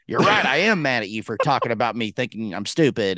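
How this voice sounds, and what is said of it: Imitates another person's voice. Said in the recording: “I always give that voice too”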